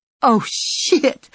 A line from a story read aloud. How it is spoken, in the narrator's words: the kid said, half-laughing